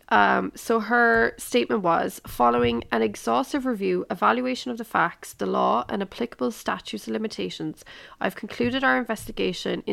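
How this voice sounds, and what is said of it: Strained, failing voice. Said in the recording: “my voice is really starting to go ... forgive my voice for sounding terrible”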